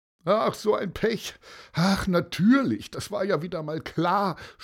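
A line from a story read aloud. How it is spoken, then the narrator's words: Groaning. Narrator (German): stöhnte Martin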